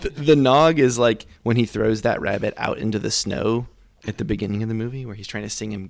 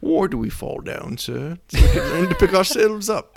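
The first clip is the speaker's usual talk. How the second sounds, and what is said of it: Michael Caine impression. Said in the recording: “this in your Michael Caine voice.”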